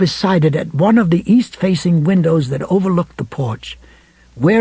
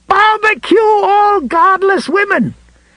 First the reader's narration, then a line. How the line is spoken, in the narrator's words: he screamed